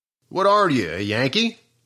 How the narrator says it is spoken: asked Fricky

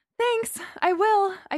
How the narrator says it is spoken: I panted

